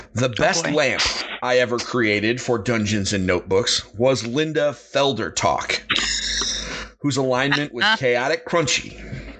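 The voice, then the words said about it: Dramatic voice-actor reading. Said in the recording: “dramatic reading ... in my best voice actor voice.”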